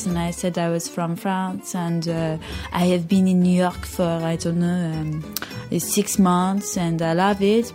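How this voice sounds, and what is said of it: Put-on French accent. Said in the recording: “I pretended to be French for a while ... and I put on this accent like this”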